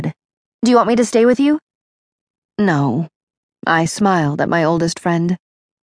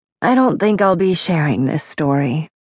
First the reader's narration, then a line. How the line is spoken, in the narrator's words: I said softly